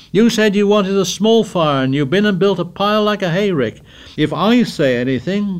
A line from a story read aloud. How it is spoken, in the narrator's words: cried Piggy with bitter realism